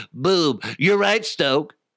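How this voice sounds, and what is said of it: Imitates another person's voice. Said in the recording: “That's my impression of Zach. Sounds nothing like him.”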